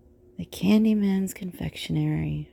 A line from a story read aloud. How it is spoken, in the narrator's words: murmur softly